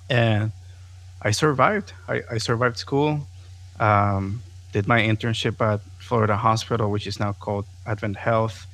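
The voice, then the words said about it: Non-native English accent. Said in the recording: “my accent, which is still there, but my accent was very, very thick”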